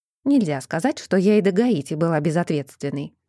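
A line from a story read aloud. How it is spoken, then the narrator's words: Irritated retort. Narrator (Russian): раздраженно возразила Джоди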